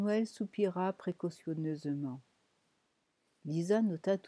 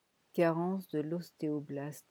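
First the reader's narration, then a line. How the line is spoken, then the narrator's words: Flat toneless voice. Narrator (French): dit-il d'une voix sans timbre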